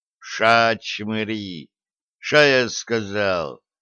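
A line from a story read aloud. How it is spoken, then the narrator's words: Booming bass bark. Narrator (Russian): ряпнул он раскатистым басом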